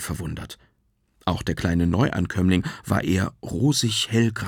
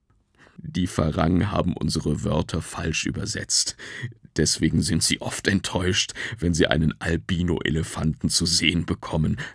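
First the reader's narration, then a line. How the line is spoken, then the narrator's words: Grandfather laughing. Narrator (German): lachte Opa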